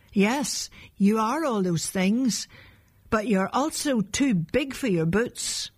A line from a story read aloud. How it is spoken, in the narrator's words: They shouted in reply